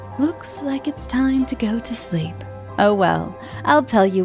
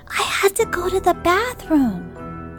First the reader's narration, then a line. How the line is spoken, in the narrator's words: she whispered to me